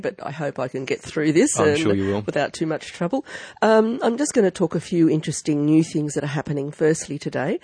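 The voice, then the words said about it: Croaky, hoarse voice. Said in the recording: “you can probably tell from my voice, I'm a little bit croaky today”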